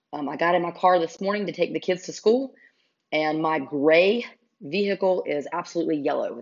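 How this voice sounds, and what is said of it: Hoarse, congested allergy-affected voice. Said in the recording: “I apologize so much for my voice... sounding like, I don't know, like I've been inhaling fumes... I promise it is just allergies... clear out my throat and sound more normal”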